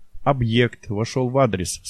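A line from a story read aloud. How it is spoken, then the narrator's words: Plain. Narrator (Russian): сказал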